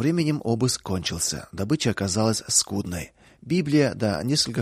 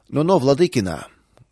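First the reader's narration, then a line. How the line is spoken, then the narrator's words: Rude interruption. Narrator (Russian): грубо прервал Сташи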